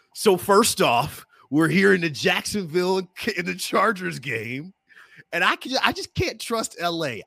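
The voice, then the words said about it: Imitates another person's voice. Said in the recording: “I'm going to do my best Mark Gunnels impersonation.”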